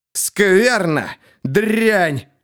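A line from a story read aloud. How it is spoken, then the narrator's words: Growling beggar. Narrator (Russian): прорычал нищий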